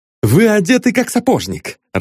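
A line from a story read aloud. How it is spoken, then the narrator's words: Cheerful chatter. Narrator (Russian): радостно болтал Остап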